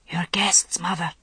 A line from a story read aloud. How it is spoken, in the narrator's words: murmured in an undertone